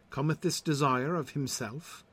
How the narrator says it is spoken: sighed Sir Launcelot

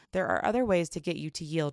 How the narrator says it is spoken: Micah said

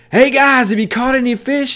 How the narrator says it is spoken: starts yelling to him on the shore, and he said, or from the shore, and he says

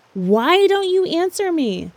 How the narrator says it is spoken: shouted rudely

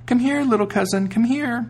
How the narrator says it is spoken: cried out

